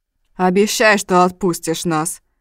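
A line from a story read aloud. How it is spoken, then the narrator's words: Demanding yet terrified. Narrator (Russian): Требовательным тоном, а у самого ужас в глазах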